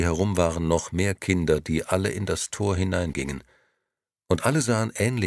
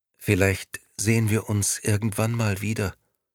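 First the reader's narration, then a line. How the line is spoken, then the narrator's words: Sad reply. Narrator (German): antwortete Maria traurig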